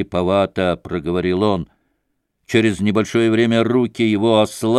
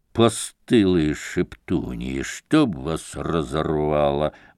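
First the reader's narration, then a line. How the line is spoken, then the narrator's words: Muttering. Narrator (Russian): бормотал он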